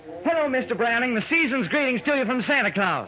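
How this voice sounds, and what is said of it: Put-on Southern accent. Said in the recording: “You're the first Santa I ever met with a southern accent. ... I've been working on that accent.”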